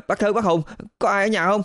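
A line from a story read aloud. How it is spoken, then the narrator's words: Breathless boy. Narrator (Vietnamese): Một thằng nhỏ, thở hổn hển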